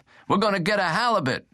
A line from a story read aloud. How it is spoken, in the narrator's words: Dominguez yelled